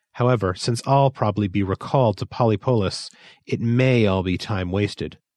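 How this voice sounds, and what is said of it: Gloomy character voice. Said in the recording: “in a gloomy voice.”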